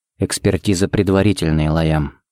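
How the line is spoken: Quiet. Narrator (Russian): сказал он тихо

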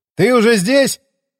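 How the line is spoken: Shouted from below. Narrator (Russian): крикнул я снизу лестницы

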